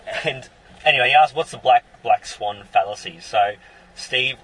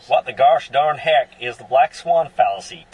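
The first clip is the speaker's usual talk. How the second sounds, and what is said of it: Poor put-on American accent. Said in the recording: “Should I try an American accent? ... Hopeless. ... Yeah, that was not good.”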